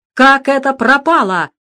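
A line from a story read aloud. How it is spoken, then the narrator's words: Shout. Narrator (Russian): закричал наконец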